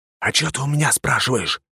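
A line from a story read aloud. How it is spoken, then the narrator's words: Hissed reply. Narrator (Russian): прошипел я в ответ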